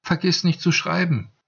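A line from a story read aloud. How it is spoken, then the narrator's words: Calling after. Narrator (German): rief ihm Ortygia nach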